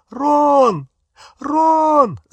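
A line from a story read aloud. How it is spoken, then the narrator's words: Calling, nearly sobbing. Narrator (Russian): звала Гермиона, уже почти рыдая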